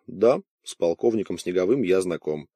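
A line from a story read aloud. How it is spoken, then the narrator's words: Dry reply. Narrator (Russian): он по-прежнему сухо ответил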